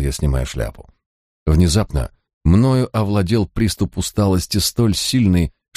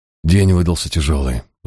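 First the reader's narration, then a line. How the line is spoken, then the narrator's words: Sigh. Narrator (Russian): вздохнул я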